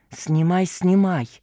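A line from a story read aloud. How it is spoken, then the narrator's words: Feverish whisper. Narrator (Russian): лихорадочно шептала журналистка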